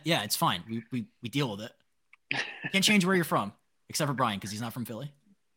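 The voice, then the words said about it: Rural Eastern Shore Maryland accent. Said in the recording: “I have an accent too ... I cut the ends of words off. I have a very Eastern Shore of Maryland kind of rednecky accent.”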